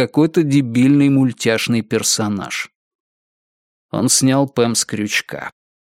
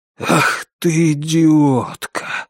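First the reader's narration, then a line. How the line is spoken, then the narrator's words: Breathless exhale. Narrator (Russian): выдохнул Норман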